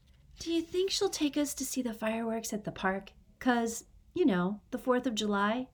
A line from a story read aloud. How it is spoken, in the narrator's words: Frankie murmured